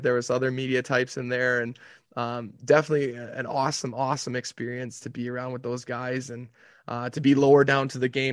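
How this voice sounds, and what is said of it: Slightly raspy voice. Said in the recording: “hear in my voice, it's a little bit raspy right now because those guys like to, they like to get after it a little bit”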